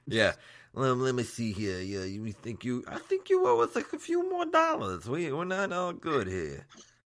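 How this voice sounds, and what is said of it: Mobster-style imitated voice. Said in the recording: “that voice you gave to the government ... that's like douchebag Marlon Brando”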